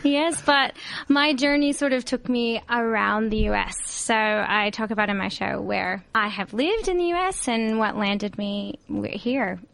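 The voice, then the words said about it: Southern American accent. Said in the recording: “we're picking up an accent, funnily enough ... I'm originally from Mobile, Alabama”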